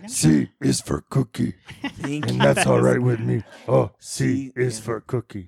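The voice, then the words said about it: Cookie Monster character voice. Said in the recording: “does a great Cookie Monster impression”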